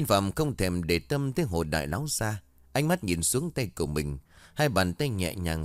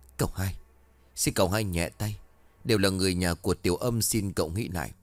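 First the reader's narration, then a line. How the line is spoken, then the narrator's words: Trembling pleading old man. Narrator (Vietnamese): Lão run rẩy nói trong khẩn khoản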